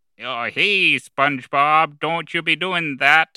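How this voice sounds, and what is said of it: Squidward impression. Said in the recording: “I've been practicing my Squidward impression.”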